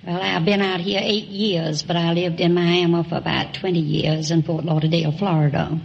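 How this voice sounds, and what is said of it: Southern US accent, Georgia. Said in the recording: “I suspected you were south of the Mason-Dixon line ... People in Long Beach don't have that kind of an accent.”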